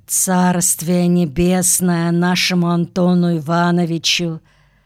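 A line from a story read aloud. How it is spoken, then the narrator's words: Muffled, hollow voice. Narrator (Russian): глухо сказал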